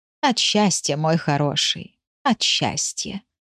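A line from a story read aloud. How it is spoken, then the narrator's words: Soft tender reply. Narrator (Russian): негромко ответила она котику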